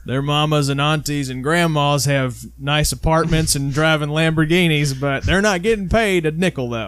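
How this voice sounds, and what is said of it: Exaggerated country bumpkin voice. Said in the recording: “if you hear us do that voice on the show, it's us making fun of stupid things that stupid sports fans say ... we default to the country idiot ... Kentucky, y'all.”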